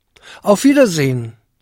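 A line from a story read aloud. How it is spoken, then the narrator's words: Trembling call after someone. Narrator (German): rief Jakob ihm mit blassem Gesicht und zitternden Lippen nach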